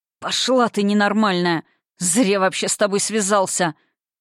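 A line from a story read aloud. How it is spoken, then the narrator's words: Hoarse rasp. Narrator (Russian): Прохрипел он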